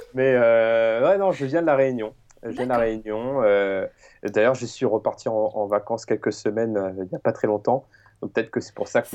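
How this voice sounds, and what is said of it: Strong southern French accent. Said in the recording (French): “On dirait que tu as un accent du Sud ... tu as l'accent fort”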